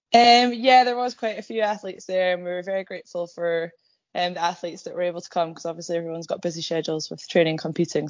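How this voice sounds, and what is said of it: Slightly croaky voice. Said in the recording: “my voice is still a little bit croaky, so apologies for that. I've not quite recovered.”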